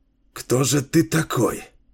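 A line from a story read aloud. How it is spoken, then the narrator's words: Whispered reply. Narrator (Russian): шептал в ответ пророк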